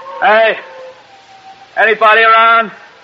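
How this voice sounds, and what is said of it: Yelling loudly. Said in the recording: “You're yelling right into the wind.”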